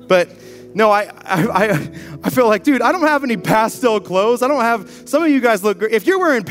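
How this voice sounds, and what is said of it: Usual voice. Nothing is said of it.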